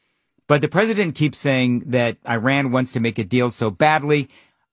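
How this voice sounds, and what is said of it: Usual voice. Nothing is said of it.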